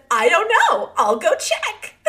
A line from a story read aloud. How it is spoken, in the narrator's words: My husband, in his most upbeat voice, said